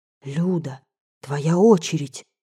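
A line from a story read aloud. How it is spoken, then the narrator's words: Whisper. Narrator (Russian): шепнул мне знакомый голос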